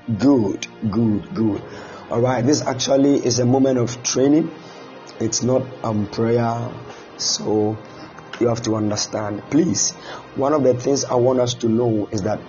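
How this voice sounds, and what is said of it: Strained, fading voice. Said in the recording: “I'm losing my voice a bit, so I'm not going to be shouting”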